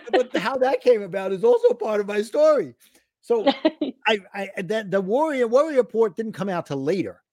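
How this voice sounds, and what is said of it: New York accent. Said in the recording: “I'm going to screw it up because I'm from New York ... an unfortunate choice of words for somebody with a New York accent”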